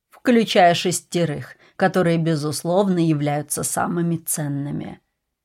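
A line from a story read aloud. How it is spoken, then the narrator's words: Condescending tone. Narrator (Russian): покровительственным тоном сказал Ричмонд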